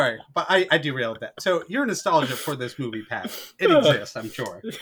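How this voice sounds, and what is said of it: Usual voice. Nothing is said of it.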